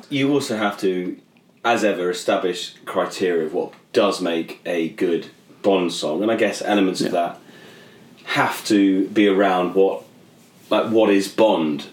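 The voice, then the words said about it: British accent. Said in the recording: “Aside from the British accent”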